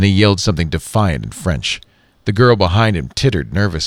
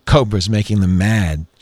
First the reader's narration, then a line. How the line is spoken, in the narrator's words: she said, giggling again